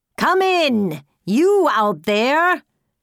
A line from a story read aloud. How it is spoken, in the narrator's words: shouted Robber Mother